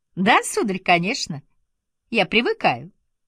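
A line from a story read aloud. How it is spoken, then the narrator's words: Laughing. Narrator (Russian): я ответила, смеясь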